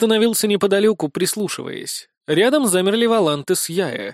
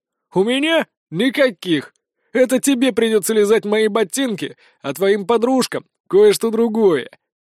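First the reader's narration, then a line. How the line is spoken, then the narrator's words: Nasty giggle. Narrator (Russian): Мерзко хихикнул дворянчик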